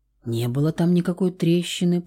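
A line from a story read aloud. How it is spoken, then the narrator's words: Mumbling. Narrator (Russian): пробормотала она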